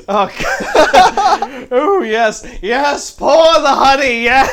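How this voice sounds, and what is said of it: Indulgent posh hedonistic character voice. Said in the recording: “What would be a hedonistic rich accent ... Let me channel my hedonism bot.”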